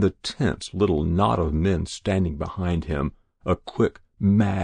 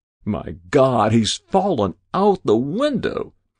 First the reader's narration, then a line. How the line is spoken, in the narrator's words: cried a quick-witted editor